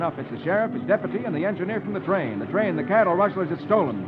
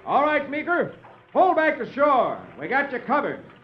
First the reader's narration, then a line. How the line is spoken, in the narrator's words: the three outlaws shouts